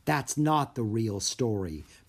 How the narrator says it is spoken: Bess said quietly, her eyes twinkling

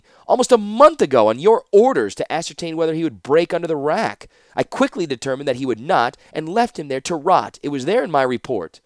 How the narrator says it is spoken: said Ashnod hotly

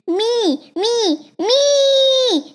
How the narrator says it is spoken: shouted Allie

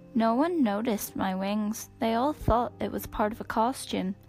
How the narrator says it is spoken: Scarlet said

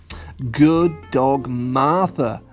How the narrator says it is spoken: exclaimed her happy family

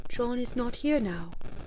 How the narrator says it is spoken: she gasped

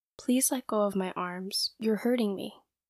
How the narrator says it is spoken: spoke in his normal voice, and he said

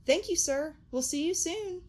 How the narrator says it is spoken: Sammy exclaimed

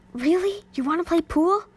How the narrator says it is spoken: The gymnast laughed again

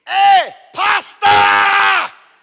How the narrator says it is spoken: and yelled

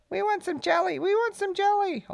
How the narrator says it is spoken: all the little cousins began to squeak

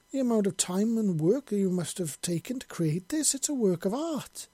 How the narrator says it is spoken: she exclaimed

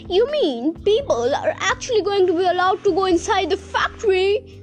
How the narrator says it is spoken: cried Grandpa Joe

